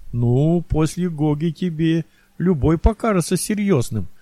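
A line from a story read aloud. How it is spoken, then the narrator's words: Chuckling. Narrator (Russian): хохотнул администратор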